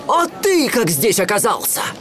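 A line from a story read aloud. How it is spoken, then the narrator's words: Surprised exclamation. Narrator (Russian): Аладдин воскликнул от удивления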